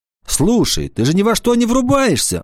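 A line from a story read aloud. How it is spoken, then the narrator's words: Shouting. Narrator (Russian): закричала она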